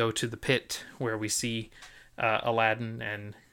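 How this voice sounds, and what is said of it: Usual voice. Nothing is said of it.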